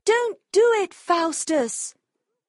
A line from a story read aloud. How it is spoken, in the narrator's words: the good angel cried